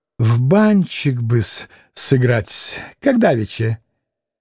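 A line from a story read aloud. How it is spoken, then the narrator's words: Sudden giggle. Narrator (Russian): хихикнул вдруг Максимов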